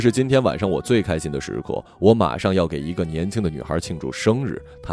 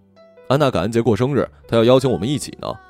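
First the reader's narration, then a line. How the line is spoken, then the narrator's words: Calling out. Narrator (Chinese): 我叫住麦克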